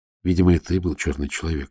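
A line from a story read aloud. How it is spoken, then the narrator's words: Whisper. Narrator (Russian): шепнул Волин Пеллегрини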